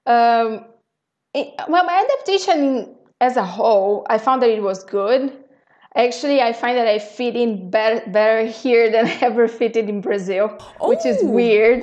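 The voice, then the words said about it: Very strong foreign accent. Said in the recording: “I still have a very strong accent, but people understand me.”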